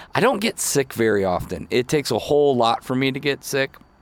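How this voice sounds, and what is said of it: Voice sounds sick with cold. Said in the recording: “As you can tell by my voice, I've caught the bug. Not COVID, but I did get a little cold.”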